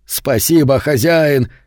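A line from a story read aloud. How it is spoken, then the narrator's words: Shouting. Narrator (Russian): кричал он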